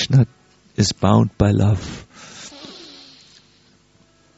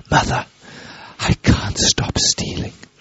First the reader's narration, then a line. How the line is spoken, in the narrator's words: helplessly whispered